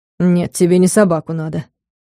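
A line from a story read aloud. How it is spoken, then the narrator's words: Gloomy, displeased remark. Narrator (Russian): мрачно заметил Соболев, давая понять свое недовольство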